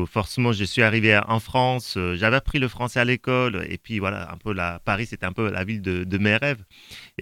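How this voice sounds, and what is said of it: Non-Parisian foreign accent in French. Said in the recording (French): “on entend à mon accent que je ne suis pas tout à fait de Paris”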